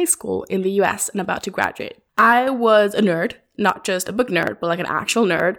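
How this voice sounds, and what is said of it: Usual voice. Nothing is said of it.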